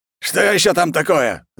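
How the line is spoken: Irritated yell. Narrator (Russian): заорал раздраженный мужчина

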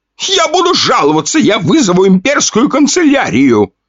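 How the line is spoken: Shouting. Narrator (Russian): кричал он

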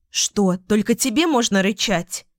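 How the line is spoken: Snapping retort. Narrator (Russian): огрызнулась Лу

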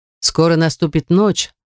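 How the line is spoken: Plain. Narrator (Russian): сказал Уго

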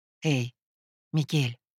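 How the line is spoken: Calling out. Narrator (Russian): позвала Веста

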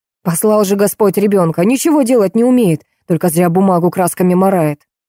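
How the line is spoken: Angry bark. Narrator (Russian): Антон Петрович в пылу гнева рявкнул

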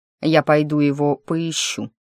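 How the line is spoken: Cold. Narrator (Russian): холодно сказал Кларенс

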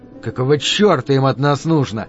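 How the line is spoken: Through gritted teeth. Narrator (Russian): процедил Дэнни

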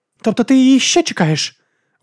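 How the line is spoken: Exclaimed. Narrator (Ukrainian): вигукнула

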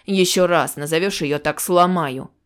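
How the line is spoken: Growled. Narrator (Russian): Олег прорычав

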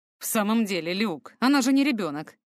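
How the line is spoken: Grumbled. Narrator (Russian): ворчал он

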